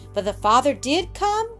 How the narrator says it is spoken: cried Roxy eagerly

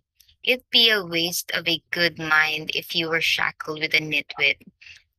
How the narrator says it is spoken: Lady Danbury said

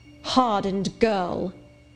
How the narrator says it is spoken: exclaimed Miss Scatcherd

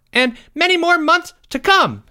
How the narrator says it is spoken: shouted Jeffrey

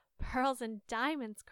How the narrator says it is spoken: cried the second

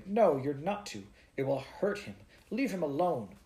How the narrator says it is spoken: exclaimed

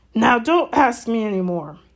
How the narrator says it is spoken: said Hagrid gruffly

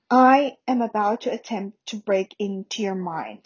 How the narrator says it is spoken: said Snape softly

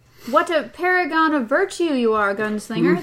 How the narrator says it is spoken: the man in black laughed

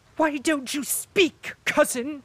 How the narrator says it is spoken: suddenly shrieked the princess, so loud

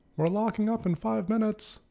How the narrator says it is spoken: The shout

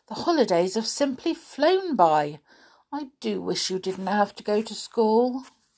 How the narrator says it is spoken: said Binkie sadly

